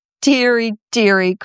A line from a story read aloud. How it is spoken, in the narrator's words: cried Papapanov slowly